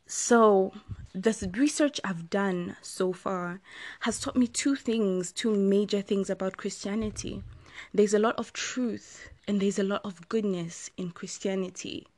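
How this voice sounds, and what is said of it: Rough, slightly hoarse voice. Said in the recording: “my voice is a little rusty... the smoke is like irritating my throat right now”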